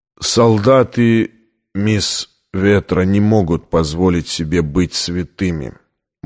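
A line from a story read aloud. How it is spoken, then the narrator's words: Gloomy. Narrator (Russian): мрачно глядя на девушку, произнес командор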